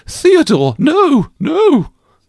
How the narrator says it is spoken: Caroline exclaimed

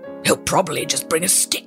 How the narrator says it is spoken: growled the giant

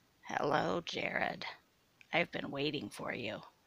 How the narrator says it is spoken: said Sue, her voice now coarse like sandpaper

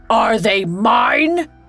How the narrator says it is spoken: he bellowed

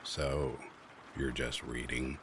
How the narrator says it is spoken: He started asking me questions that were really just statements, but in a creepy, amused tone

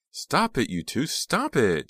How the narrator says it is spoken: Jade shrieked

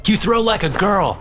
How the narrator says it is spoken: I shouted

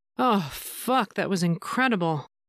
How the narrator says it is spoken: sighed

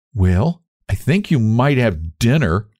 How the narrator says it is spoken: said Jimmy in an injured tone

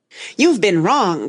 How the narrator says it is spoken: cried Tweedledum

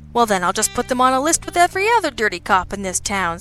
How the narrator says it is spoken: Sabian said cheerfully

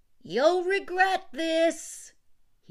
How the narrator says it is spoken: he shouted

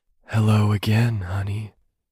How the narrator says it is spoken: the husky voice of the girl who was not Nalda whispered

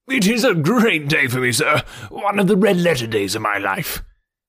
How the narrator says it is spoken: he cried with many chuckles

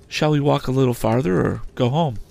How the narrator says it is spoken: with a quiet sigh for me, Biddy said with a fresh and pleasant change of voice

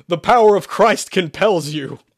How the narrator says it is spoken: Sherman shouted

